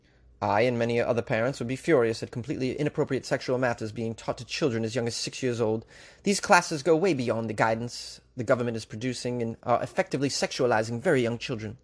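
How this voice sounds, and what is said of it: Put-on English accent. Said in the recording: “Pretty good English accent, I'd say... You give me like a 3 out of 5.”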